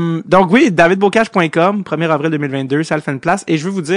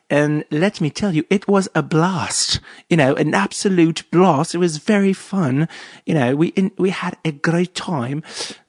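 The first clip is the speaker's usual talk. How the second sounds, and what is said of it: Exaggerated fake British accent. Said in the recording (French): “C'est pas vraiment un accent, il y avait beaucoup d'épices là-dedans, mais c'est pas un vrai accent british”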